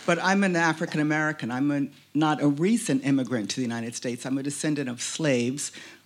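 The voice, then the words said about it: American accent. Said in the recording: “you've heard my American accent by now.”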